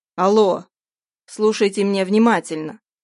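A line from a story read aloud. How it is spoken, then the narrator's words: Growl into phone. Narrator (Russian): прорычал он в трубку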